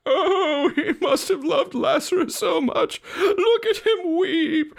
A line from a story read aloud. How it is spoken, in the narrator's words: The mourners cried